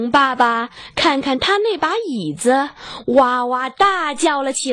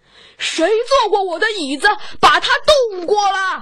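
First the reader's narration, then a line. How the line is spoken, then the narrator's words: Mild exclamation. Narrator (Chinese): 熊妈妈 不那么想的叫了一句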